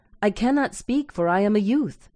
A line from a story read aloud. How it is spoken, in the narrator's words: he exclaimed